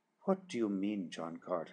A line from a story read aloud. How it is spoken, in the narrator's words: she whispered